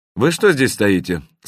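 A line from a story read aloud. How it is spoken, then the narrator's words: Even, level voice. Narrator (Russian): спросил Леша ровным голосом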